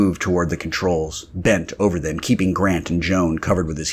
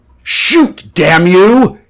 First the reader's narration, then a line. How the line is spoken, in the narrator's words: roared